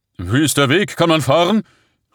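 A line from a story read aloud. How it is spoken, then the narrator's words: Calling out. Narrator (German): rief er zu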